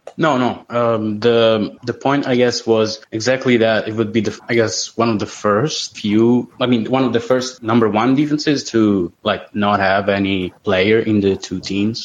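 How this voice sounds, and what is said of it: Italian accent. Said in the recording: “we love the Italian accent”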